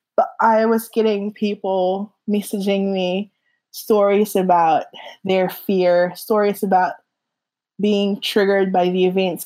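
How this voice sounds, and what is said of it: Shaky, emotional voice near tears. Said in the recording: “I'm probably going to cry. So if my voice is a little shaky.”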